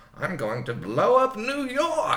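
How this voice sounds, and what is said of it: Over-the-top put-on villain accent. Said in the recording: “With that accent.”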